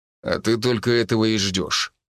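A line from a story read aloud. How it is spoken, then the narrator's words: Wry snort. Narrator (Russian): хмыкнул Аарон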